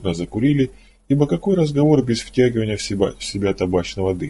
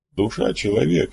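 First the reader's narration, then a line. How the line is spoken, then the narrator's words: Amused snort. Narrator (Russian): хмыкнул Флейшман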